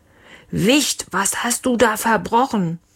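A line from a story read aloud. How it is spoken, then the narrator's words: Roar. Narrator (German): Leons Papa brüllte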